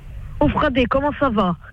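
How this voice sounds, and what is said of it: Exaggerated Corsican accent. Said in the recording (French): “fais-moi l'accent corse un peu forcé ... il faut allonger les paroles”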